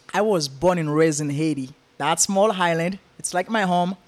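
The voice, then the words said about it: Noticeable foreign accent. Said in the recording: “I hear a dialect.”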